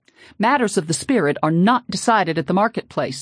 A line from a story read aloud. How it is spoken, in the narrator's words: he shouted sternly